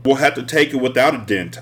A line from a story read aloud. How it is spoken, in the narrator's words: I said